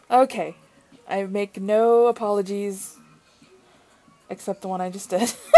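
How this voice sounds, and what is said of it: Usual voice. Nothing is said of it.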